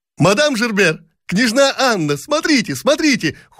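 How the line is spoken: Many young ladies shouting together. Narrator (Russian): хором закричали бесчисленные барышни Долгоруковы

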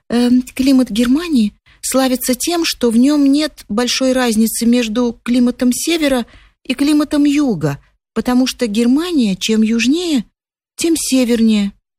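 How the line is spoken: Breathless babbling. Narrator (Russian): и, задыхаясь, пролепетала

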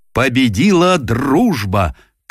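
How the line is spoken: Solemn exclamation. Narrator (Russian): торжественно выкрикнул он

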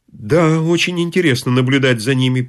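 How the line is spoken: Mumbling. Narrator (Russian): промямлил он

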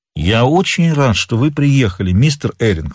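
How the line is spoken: Plain. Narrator (Russian): сказал

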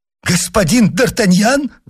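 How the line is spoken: Exclaiming. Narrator (Russian): воскликнул он

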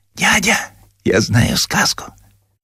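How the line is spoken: Whisper. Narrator (Russian): шепотом

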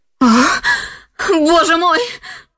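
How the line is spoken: Screamed. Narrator (Russian): закричала она

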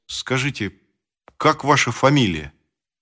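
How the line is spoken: Halting, stammering. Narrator (Russian): Володя произнес, наконец, запинаясь

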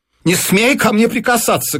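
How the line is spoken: Shouted. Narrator (Russian): крикнула жена

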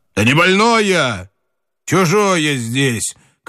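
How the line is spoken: Shouted. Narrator (Russian): крикнул Семен

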